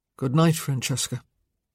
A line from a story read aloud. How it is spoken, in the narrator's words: he said softly